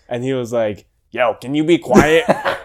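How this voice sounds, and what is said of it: Impression of a complaining roommate. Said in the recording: “That was an incredible impression”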